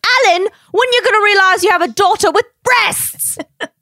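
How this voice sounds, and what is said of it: Put-on British accent. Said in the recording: “my British accent. ... The accent,”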